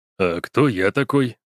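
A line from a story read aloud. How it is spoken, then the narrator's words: Plain. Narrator (Russian): спросил Лунин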